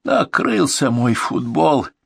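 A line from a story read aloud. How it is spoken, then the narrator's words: Groaning, wounded. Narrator (Russian): простонал раненый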